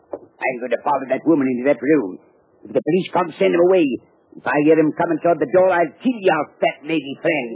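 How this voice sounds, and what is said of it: English accent. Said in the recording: “a skinny little gunman with an English accent”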